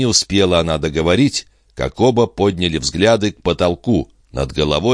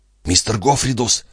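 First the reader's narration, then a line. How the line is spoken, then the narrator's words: Whispering. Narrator (Russian): прошептал Пин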